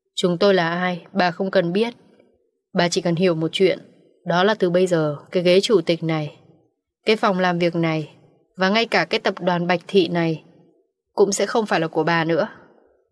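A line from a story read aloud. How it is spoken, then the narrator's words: Big man's cold voice. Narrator (Vietnamese): Một người đàn ông có thân hình cao lớn, giọng lạnh lùng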